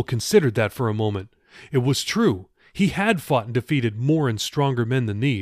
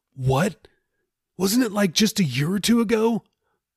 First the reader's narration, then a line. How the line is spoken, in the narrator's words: sighed